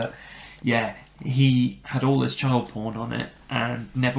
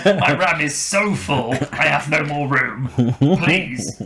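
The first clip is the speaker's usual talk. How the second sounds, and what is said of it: Put-on British accent. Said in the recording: “Obviously, he doesn't have a British accent, so I don't know why I'm doing that.”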